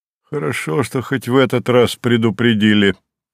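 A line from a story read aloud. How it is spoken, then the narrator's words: Wry snort. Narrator (Russian): хмыкнул Савва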